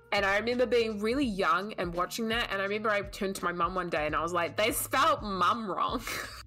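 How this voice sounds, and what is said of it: Non-American accent. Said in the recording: “say it with your accent ... there's a cur at the end”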